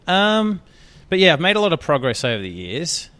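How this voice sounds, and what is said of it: Australian accent. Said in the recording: “my accent, my Australian accent, ... a lot of people like my accent”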